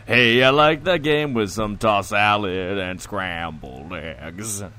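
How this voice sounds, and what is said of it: Imitates another person's voice. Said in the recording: “That's a very good impression”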